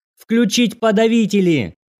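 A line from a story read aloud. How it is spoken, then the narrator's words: Wild yelling. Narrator (Russian): Старшая дежурная опомнилась и дико заорала на операторов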